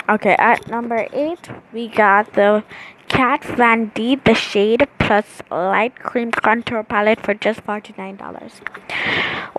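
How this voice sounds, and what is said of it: Slightly congested, sick-sounding voice. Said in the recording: “I have a little cold.”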